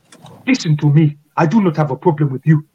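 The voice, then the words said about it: Blended thick African accent. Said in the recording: “a really thick, like South African accent ... this lovely blend around me. Of different African accents. I sort of just push them together and it just creates something just so ridiculous ... the accent is just so good”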